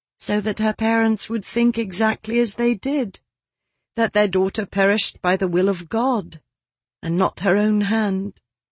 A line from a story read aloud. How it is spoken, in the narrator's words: said his wife sadly